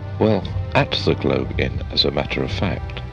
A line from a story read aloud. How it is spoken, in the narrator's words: said Parkins